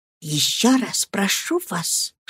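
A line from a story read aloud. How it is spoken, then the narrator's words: Heartfelt whisper. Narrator (Russian): шепнула она с чувством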